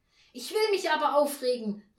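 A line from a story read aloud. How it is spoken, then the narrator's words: Angry call. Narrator (German): rief Frau Janka erbost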